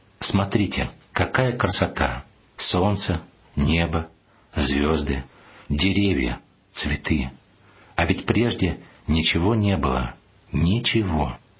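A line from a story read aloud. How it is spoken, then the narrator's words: Slow. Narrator (Russian): медленно повторил батюшка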